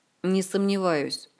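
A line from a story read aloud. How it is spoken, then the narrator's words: Cold and angry. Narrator (Russian): холодно и зло отозвался Орландо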